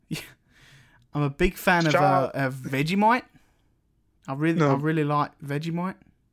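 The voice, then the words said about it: Poor put-on Australian accent. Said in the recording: “his horrible Australian accent”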